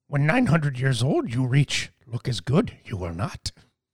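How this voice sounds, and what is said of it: Yoda voice impression. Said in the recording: “Yoda's quote ... It's a really good impression.”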